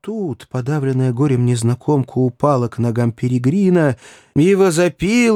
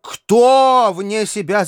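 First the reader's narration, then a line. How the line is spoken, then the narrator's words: Shout. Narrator (Russian): закричал Перегрин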